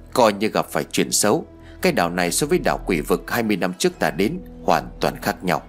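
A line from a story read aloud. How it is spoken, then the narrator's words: Muttered. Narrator (Vietnamese): Nhị gia lẩm bẩm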